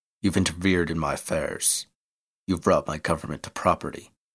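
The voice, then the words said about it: Rough Irish brogue. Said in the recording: “He spoke with a rough Irish brogue.”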